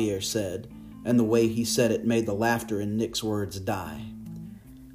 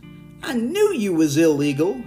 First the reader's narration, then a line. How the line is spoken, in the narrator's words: he said, his voice full of mirth